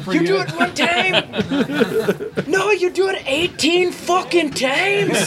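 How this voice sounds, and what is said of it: Good Scottish accent. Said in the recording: “You have a very good Scottish accent.”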